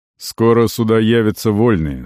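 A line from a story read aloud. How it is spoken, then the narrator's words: Plain. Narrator (Russian): сказал Арон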